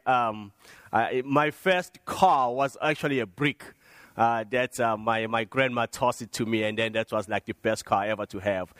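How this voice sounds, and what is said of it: African accent. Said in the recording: “you notice when I speak, I have something, an accent. I did not grow up over here in America ... I grew up in Africa”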